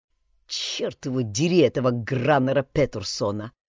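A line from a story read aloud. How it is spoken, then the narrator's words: Mutter. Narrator (Russian): пробормотал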